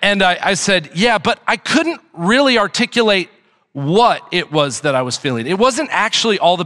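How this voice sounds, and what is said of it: Usual voice. Nothing is said of it.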